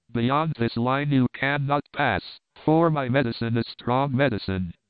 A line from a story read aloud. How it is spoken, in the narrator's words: he cried